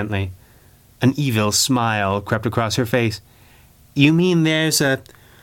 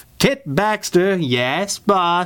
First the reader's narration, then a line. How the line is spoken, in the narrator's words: she said triumphantly, not waiting for him to finish